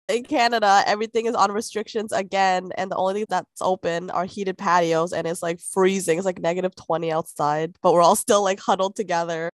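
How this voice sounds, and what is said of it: Voice sounds like a cold. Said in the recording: “I don't know if you could hear it in my voice. I'm getting like a cold or something.”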